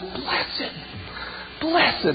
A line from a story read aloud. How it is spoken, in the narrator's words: what she begins to shout is